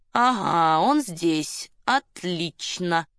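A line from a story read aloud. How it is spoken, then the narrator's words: Muttered. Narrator (Russian): Мизинов пробурчал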